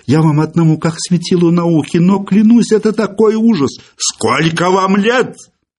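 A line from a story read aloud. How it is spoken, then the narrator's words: Furious, shrill. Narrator (Russian): яростно и визгливо спросил Филипп Филиппович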